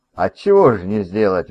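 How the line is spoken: Cheerful. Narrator (Russian): весело сказал Сэм

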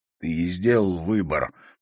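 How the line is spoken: Hoarse. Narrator (Russian): прохрипел Харри

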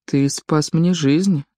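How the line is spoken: Quiet. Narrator (Russian): сказал он тихо

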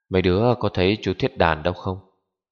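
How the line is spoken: Sighing man's question. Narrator (Vietnamese): ông ta thở dài một hơi hỏi

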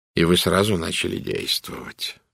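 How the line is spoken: Gloomy. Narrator (Russian): мрачно сказал Пуаро

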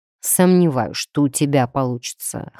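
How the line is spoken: Skeptical snort. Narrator (Russian): хмыкнул Дроу

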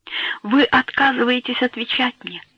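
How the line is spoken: Timid babbling. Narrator (Russian): пролепетала

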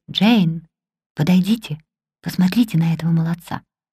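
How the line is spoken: Quiet. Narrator (Russian): Он сказал негромко

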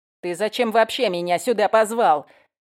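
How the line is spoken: Snort. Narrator (Russian): фыркнул он

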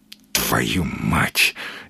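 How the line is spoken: Barely audible breath. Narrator (Russian): еле слышно выдохнул Маломальский

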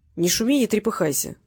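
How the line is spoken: Calm. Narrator (Russian): спокойно сказал

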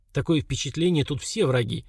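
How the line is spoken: Muttered. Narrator (Russian): пробормотал Слава

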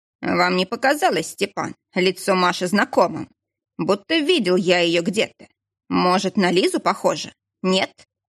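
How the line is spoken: Snorting. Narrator (Russian): Кошкин хмыкнул

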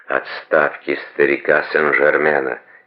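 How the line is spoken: Quiet and fervent. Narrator (Russian): тихо и пылко отвечал Водрейль

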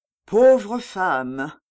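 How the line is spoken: Relieved sigh. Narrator (French): dit le Nantais, avec un soupir de soulagement

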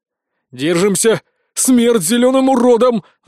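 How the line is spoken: Battle roar, others join. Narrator (Russian): взревела Варра, которую дружно поддержали подруги

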